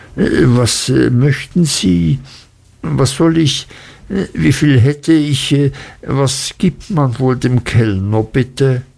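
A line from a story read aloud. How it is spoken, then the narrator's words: Embarrassed stammering. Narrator (German): stammelte ich und wurde rot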